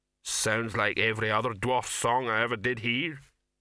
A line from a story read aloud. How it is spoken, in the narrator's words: rumbled the troll